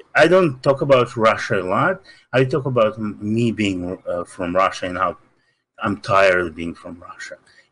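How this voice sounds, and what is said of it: Russian accent. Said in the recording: “Then I have this accent immediately. I cannot hide it. ... I'm from Russia”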